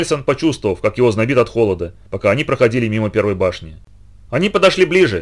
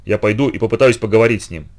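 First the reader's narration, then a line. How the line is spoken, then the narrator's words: Plain. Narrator (Russian): сказал он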